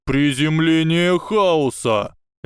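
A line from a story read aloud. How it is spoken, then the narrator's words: Shout. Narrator (Russian): Невилл крикнул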